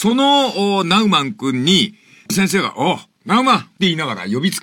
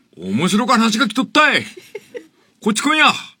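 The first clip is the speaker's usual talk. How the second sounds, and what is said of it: Put-on Satsuma dialect. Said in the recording (Japanese): “薩摩弁で言ったかどうかはわかりませんが ... 薩摩っぽい”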